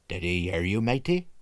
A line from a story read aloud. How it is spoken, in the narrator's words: asked the cook in a lower voice